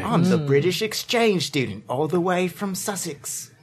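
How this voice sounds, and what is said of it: Put-on British accent. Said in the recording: “you sound a little bit British if you just put it on a little bit”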